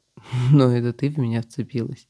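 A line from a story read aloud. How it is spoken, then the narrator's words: Rider laughing. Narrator (Russian): Засмеялся всадник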